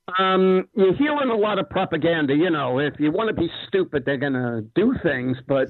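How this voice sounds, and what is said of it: Staten Island New York accent. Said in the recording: “You got your Staten Island, New York accent.”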